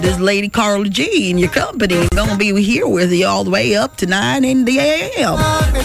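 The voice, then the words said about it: Put-on American Deep South accent. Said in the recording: “It's not my culture. This is not my accent. ... If I'm living in deep south, this is how I talk in the United States of America.”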